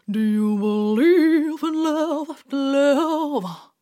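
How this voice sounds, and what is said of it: Pursed-lip singer impression. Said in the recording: “did a share impression ... I have to purse my lips ... Actually very good.”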